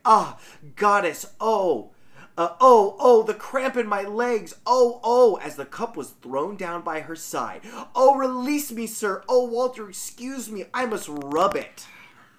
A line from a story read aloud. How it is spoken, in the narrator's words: she seemed to start with pain, and she exclaimed